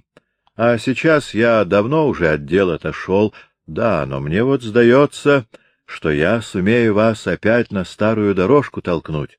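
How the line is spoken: Plain. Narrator (Russian): сказал Дирк Хаттерайк

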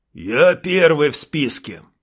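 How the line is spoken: Deep bass voice. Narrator (Russian): пробасил сержант Ромео

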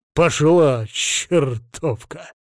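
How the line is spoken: Grumbling. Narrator (Russian): буркнул он

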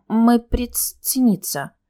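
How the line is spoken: Trembling voice. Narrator (Russian): дрожащим голосом выдала я

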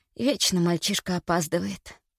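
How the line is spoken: Whisper. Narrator (Russian): прошептала

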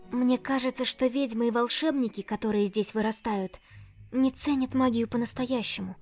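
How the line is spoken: Quiet. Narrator (Russian): тихо сказала она

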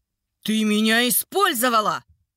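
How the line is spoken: Hateful yelling. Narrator (Russian): орал Марей с ненавистью

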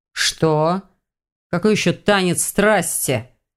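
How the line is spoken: Irritated growl. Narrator (Russian): Невольно перешел на рычание леший

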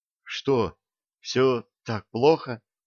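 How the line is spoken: Trembling voice, question. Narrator (Russian): дрожащим голосом спросила Ленка

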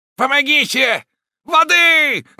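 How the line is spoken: Shouting. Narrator (Russian): кричал Роден

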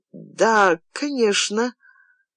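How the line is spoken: Hesitant, flat, muffled voice. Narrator (Russian): сказала она нерешительно, все еще бесцветным глухим голосом

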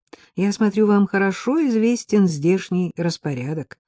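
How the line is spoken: Plain. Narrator (Russian): сказала я

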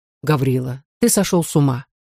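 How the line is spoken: Calm. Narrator (Russian): сказал Никита спокойно

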